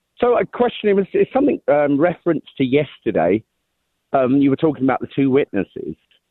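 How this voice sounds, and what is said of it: English accent. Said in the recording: “I think you got my accent gave it away from Montana, huh? ... You must be from the English side of Montana.”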